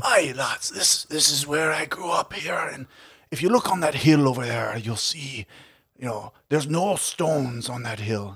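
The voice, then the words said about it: Irish-accented imitation of an old man. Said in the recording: “this is more of an Irish accent.”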